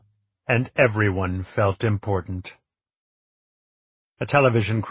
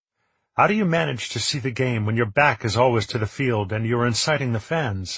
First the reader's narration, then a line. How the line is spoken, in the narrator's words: I asked